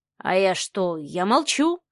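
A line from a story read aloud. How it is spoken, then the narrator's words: Snorted. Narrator (Russian): хмыкнул Кирилл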